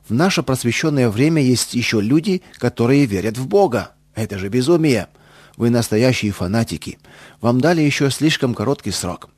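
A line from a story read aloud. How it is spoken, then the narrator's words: Loud public speech. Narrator (Russian): начал один громко, чтобы все слышали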